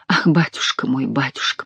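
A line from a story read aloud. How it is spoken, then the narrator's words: Whisper. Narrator (Russian): прошептала я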